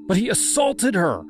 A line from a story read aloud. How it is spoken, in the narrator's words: I cried